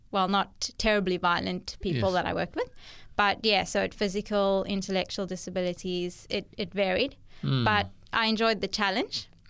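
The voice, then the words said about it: South African accent. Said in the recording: “We can hear by the accent that you're from South Africa.”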